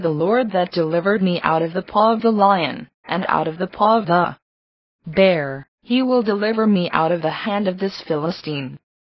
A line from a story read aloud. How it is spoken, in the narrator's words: David said calmly